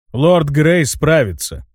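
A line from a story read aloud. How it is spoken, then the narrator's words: Flat, impassive tone. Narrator (Russian): бесстрастным тоном повторил Марсель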